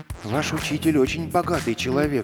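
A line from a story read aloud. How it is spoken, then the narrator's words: Fearful whisper. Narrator (Russian): прошептал Эдик к сестре, с опаской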